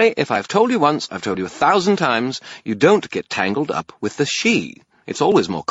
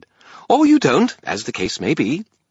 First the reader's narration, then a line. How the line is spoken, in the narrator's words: Bob said brightly